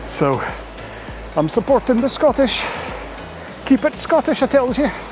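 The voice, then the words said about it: Exaggerated Scottish Groundskeeper Willie impression. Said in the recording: “my Gardener Willie impression”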